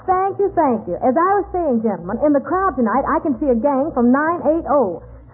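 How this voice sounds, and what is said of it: Brooklyn talk with Texas accent. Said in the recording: “This girl talks Brooklyn with a Texas accent.”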